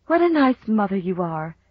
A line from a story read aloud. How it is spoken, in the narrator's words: she sighed